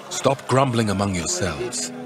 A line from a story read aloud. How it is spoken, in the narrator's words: Jesus answered